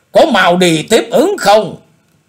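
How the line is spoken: Shouted order. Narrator (Vietnamese): Quái nhân áo lam quát bảo bọn người của Thanh Mao Bang rằng

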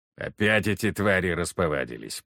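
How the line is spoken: Grumbling father. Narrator (Russian): проворчал отец

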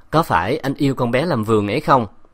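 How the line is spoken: Wry, cool smile. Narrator (Vietnamese): Bạch Yến cười nhạt

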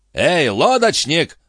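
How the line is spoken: Loud booming shout. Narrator (Russian): зычным голосом закричал дядюшка Антифер

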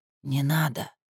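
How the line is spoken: Quiet whisper. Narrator (Russian): так, чтобы было слышно только Ляля, шепнула Камила

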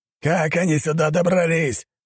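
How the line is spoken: Roaring bellow. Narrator (Russian): взревел он

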